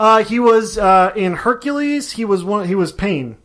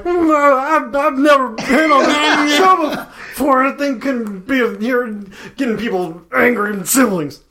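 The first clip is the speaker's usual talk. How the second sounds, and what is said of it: Bad imitation of another person's voice. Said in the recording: “This is a very bad Bobcat Goldthwait impression.”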